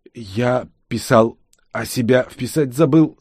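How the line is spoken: Stammering. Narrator (Russian): заикаясь, ответил он

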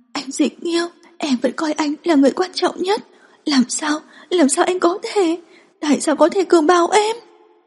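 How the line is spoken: Hoarse, choked sobbing. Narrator (Vietnamese): Dương Lưu Vân càng khóc càng đau lòng hơn, giọng nói khàn khàn nghẹn ngào

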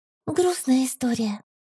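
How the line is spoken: Sighing, glum. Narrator (Russian): вздохнула я, хмурясь

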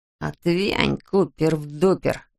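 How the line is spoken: Hiss. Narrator (Russian): прошипел Пупс

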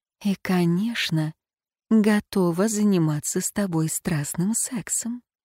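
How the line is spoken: Intimate whisper. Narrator (Russian): прошептать

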